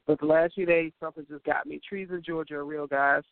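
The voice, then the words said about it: Slightly congested, sniffly voice. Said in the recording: “I sound a little congested”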